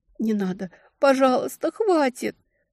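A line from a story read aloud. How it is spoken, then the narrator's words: Sobbing captive woman. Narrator (Russian): Пленница зарыдала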